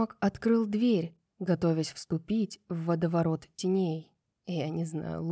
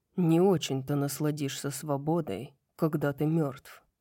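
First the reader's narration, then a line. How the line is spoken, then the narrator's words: Gloomy mutter. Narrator (Russian): угрюмо пробурчал Хант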